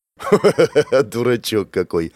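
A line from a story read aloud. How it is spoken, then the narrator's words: Laughing. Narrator (Russian): рассмеялся я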